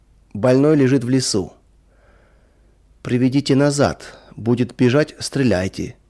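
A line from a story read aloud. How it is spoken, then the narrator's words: Cold command. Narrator (Russian): холодно скомандовал кто-то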